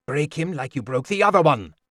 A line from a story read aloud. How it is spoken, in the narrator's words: he'd mutter angrily